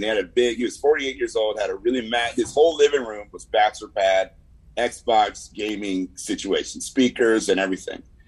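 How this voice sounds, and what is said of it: California San Fernando Valley accent. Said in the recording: “Valley dudes from California talk a lot like me... I have this accent that, you know, maybe you're like, hey, man, he doesn't sound black all the time. Like, well, that comes from the Valley.”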